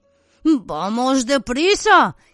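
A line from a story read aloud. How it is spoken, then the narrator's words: Groaning, stomach ache. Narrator (Spanish): gimió frotándose el estómago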